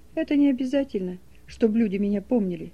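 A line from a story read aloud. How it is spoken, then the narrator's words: Quiet. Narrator (Russian): тихо сказал Саша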